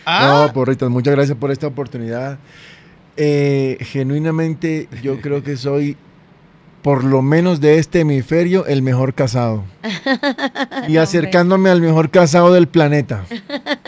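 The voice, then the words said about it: Announcer-like broadcaster voice. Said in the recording (Spanish): “¡Qué voz de locutor,”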